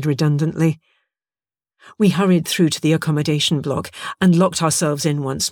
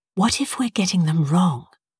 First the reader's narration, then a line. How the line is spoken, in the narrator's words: asked quietly